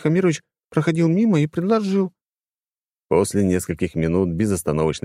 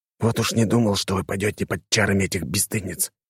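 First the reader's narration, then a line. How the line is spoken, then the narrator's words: Whisper. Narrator (Russian): прошептал я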